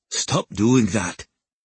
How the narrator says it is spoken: he growled

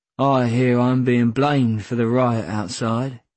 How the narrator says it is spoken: said Dad, his voice almost a monotone

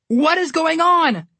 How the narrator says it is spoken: Connor yelled

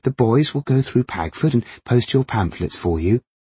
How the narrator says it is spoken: Ruth had said brightly

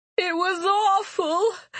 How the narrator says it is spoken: Phineas wailed

